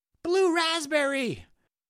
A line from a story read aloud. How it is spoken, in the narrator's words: shouted a Jonathan